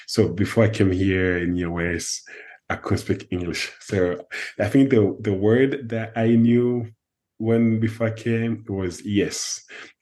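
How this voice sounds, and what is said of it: French accent. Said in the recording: “that's French accent”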